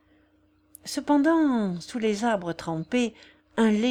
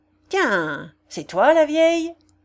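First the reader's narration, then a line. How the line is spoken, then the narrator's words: Shout choked with sneering laughter. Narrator (French): cria le zingueur qu'un ricanement étranglait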